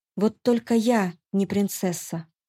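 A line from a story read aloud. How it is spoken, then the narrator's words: Calm reminder. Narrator (Russian): спокойно напомнила ему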